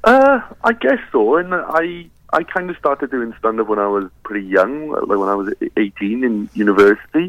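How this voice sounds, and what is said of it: Welsh accent. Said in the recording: “your accent, you are Welsh”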